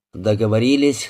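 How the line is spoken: Plain. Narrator (Russian): сказал Хейс

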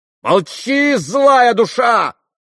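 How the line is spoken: Furious shout. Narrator (Russian): яростно крикнула ему Грушенька

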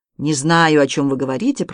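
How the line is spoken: Grumbling. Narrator (Russian): проворчал Видок

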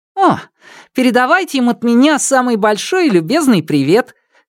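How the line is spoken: Cheerful reply. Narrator (Russian): Весело отозвался Константин

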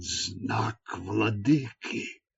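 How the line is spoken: Breathless exhale. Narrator (Russian): выдохнул он

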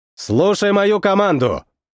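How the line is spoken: Loud command. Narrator (Russian): Громко произнес

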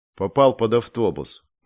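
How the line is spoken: Gloomy. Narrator (Russian): мрачно произнес я

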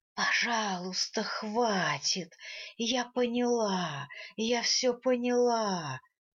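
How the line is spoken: Pleading. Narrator (Russian): Взмолилась, наконец, Винар на понятном мне языке

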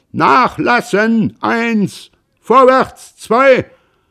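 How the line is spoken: Bellowing at full lung. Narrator (German): Vater Roland brüllte aus voller Lunge

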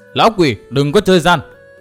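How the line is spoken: Startled, loud. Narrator (Vietnamese): sửng sốt, lớn tiếng nói

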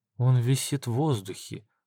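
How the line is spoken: Whispered. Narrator (Russian): прошептала Навсекая

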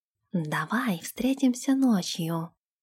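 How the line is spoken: Barely audible whisper. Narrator (Russian): едва слышно прошептал Нэш Ирги

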